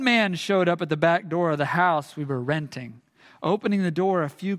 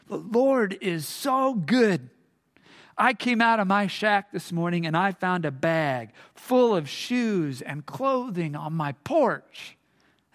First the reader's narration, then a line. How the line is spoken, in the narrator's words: he exclaimed